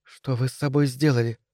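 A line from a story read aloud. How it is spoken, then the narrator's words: Whisper. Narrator (Russian): прошептала я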